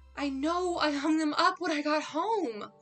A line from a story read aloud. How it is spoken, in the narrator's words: sighed loudly